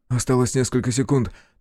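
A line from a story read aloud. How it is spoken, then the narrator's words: Hurried whisper. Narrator (Russian): торопливо прошептал Кику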